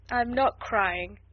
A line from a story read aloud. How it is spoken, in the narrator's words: answered Ermengarde in a muffled, unsteady voice